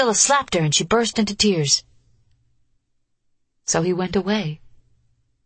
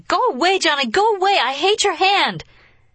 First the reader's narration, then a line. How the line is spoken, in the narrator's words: The nervous child went on screaming